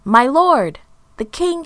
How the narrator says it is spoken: he shouted

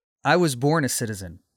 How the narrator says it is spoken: Paul answered again

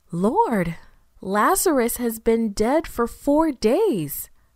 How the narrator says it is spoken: Martha exclaimed

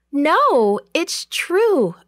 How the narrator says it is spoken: Rhoda cried

